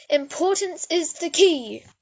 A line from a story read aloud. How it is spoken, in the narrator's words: Fox exclaims